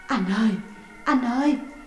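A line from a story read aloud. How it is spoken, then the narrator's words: Trembling. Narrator (Vietnamese): miệng run rẩy nói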